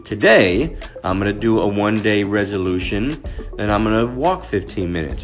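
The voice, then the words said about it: Unusually deep voice. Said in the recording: “my new deep voice until I get it back”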